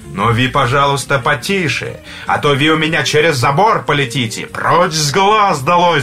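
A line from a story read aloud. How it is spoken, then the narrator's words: Angry shout. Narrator (Russian): Жид рассердился и тоже крикнул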